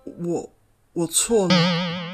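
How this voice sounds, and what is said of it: Quiet, stammering reply. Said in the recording (Chinese): “船八小声的回答说”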